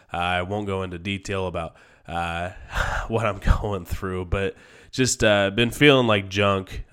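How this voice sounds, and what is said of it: Sick voice from a cold. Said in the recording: “I've had a cold. I am still fighting this. I'm sure you can hear it in my voice.”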